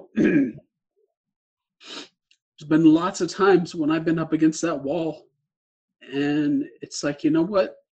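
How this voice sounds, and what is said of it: Emotional, choked-up voice. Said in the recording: “get a little emotional”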